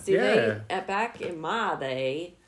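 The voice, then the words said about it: Bad put-on Southern accent. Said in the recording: “worst southern accent ... ever.”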